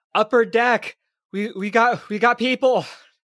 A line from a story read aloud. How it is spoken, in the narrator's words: yell out